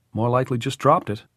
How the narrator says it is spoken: Tom said

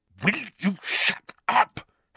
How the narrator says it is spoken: Harry hissed

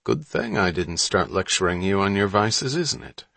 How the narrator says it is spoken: Hatch said

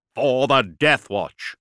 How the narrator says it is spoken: the squad shouted, voices amplified by voxcasters

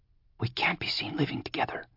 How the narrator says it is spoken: whispered Fleur

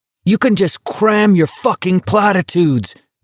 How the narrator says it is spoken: Garrity shouted

